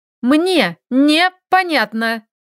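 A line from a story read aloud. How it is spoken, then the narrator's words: Irritated, clipped. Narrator (Russian): раздраженно отчеканила Лилька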